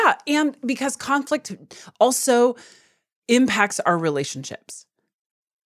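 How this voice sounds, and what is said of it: Usual voice. Nothing is said of it.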